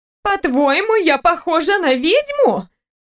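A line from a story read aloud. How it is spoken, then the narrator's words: Indignant gasp. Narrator (Russian): Розевский возмущенно ахнула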